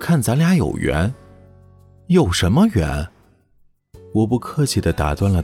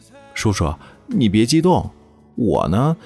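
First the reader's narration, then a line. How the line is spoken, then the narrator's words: Smiling. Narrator (Chinese): 小巨笑眯眯地说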